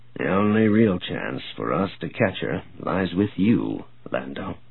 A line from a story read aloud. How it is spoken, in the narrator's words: Grayson said softly